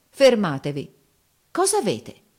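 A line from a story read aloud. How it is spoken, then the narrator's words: Exile exclaiming. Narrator (Italian): esclamò il fuoruscito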